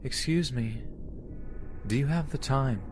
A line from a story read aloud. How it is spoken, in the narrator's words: Her voice was very calm and almost sad